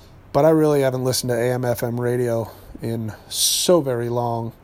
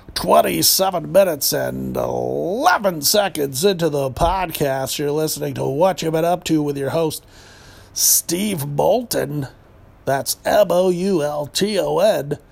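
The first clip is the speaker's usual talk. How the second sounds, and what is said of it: Fake radio DJ voice. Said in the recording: “I'm doing the good old Tom Likas fake DJ voice that I think has gone out of fashion by now”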